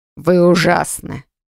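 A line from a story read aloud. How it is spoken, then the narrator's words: Snorted. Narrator (Russian): фыркнул он напоследок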